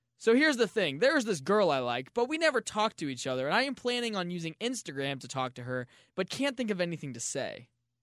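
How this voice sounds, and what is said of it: Weird young boy's voice. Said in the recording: “I don't know why I used a weird voice. ... that was my 12-year-old voice.”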